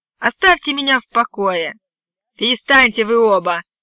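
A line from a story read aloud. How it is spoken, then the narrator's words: Sharp shout. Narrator (Russian): прикрикнул на нас шериф Купер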